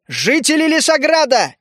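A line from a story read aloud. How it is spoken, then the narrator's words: Shouted. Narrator (Russian): выкрикнул я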